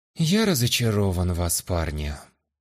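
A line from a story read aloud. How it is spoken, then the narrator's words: Sad. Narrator (Russian): печально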